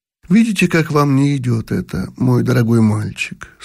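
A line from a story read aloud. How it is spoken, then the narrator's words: Sad. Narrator (Russian): сказала грустно белая лилия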